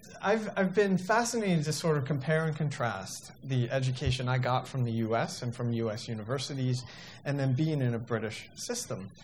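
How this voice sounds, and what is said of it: American accent, maybe slight British. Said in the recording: “you can probably tell from my lack of accent that I come from the US, I'm not British ... perhaps it's starting to come through”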